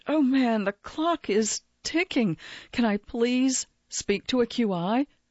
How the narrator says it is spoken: His voice crackled with tension

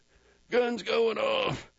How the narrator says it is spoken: Jack's choked

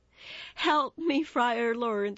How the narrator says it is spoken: she begged

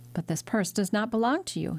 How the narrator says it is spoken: cried

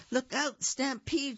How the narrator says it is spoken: she cried

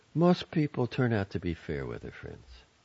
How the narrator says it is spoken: said with a sigh

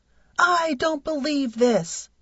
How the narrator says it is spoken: screamed

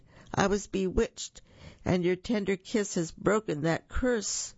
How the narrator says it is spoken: cried

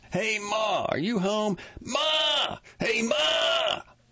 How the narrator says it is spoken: the others shout, too

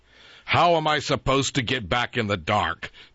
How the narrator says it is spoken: Jack grumbled

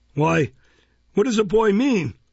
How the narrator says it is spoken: exclaimed Mr

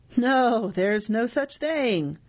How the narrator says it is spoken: He forced a laugh and said

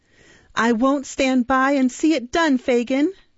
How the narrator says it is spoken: cried the girl

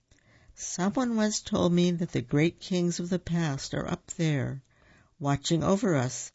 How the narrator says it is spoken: he told Simba and Pumbaa sadly

